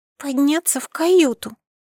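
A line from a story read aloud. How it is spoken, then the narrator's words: Child's timid babble. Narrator (Russian): пролепетала мелкая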